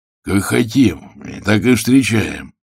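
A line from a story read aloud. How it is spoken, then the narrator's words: Rude, gruff. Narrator (Russian): грубо проговорил Андрей Георгиевич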